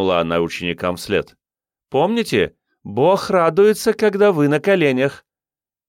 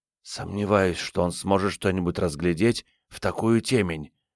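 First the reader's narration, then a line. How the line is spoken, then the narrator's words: Whispering in ear. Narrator (Russian): прошептала Салли на ухо Джейн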